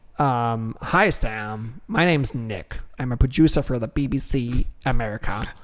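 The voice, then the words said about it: Imitated accent of a producer. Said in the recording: “And that was his exact accent.”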